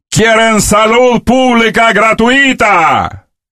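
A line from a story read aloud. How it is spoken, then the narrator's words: Shouting. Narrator (Russian): Фидель кричал им, он кричал им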